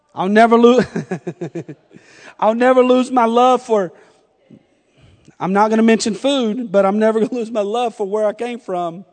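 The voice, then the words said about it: Slight Southern US accent. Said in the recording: “I'm from North Carolina. I may sound a little southern ... I'm getting a little Yankee-fied.”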